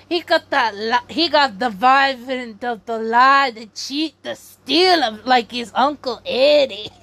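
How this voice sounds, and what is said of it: Put-on accent. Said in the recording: “I don't know if I should have done that accent. I'm so sorry.”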